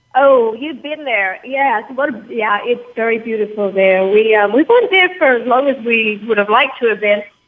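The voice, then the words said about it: English accent. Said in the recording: “She was born in England, as you can tell by her accent.”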